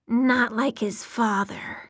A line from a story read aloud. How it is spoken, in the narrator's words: one said, the words as raspy as sandpaper